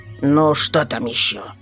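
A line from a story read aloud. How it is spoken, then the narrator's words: Grumbling. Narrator (Russian): проворчал Морок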